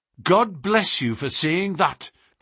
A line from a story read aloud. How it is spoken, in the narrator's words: cried Miss Harrison